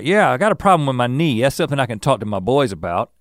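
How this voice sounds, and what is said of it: Put-on Southern accent. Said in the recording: “I'm characterizing everyone who's ignorant as with a Southern accent ... those are the kinds of accents that I do”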